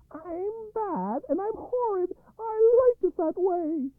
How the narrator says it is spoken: she would shout

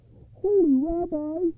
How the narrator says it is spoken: he cried

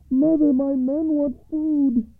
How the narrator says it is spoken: cried the youngest son over the west wall

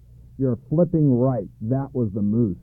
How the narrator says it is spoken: he growled

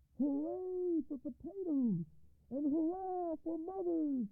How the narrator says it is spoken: shouted the soldiers when they had eaten and felt better

